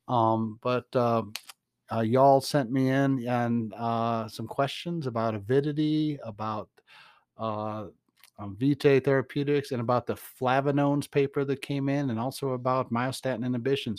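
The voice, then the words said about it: Rural Georgia Southern accent. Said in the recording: “is my accent. Dan Perez told me that the Google translation of the podcast just struggles with my accent ... when you live in Atlanta ... You do have to speak a slightly different language when you get outside the city limits. And so I've kind of maintained that accent.”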